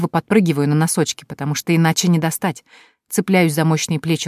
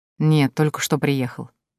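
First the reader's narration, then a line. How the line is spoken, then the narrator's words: Soft, smiling. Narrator (Russian): мягко улыбается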